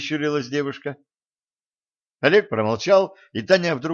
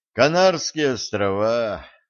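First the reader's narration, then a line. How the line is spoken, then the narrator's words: Sigh. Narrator (Russian): вздохнул богатырь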